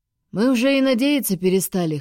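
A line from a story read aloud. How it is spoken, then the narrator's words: Chuckle. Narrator (Russian): хохотнул Доминик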